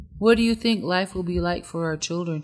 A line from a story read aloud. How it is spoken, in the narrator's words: she asked